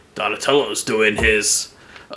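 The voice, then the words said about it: Awful impression of cartoon character. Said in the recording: “my awful impression of Splinter”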